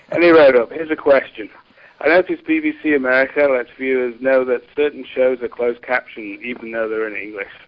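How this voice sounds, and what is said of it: British accent. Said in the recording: “Brit accents ... a bloke with an accent ... the Brit accent”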